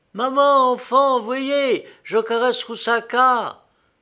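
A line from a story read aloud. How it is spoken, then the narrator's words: Exclaiming. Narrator (French): s'écria Lélia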